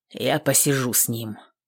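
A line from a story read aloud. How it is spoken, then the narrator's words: Grumbled. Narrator (Russian): пробурчал казак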